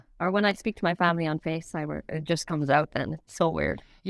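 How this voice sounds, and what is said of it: Irish accent. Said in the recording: “I think we can confirm that she's Irish. ... Oh, it's not gone. ... It's not, but I'm sure it's less when you go home.”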